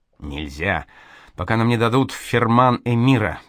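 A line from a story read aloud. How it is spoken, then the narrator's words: Grumbled, scribe. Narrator (Russian): пробурчал книжник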